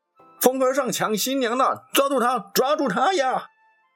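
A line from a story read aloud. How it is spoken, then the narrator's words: Shouting while chasing. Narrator (Chinese): 一面追，还一面大喊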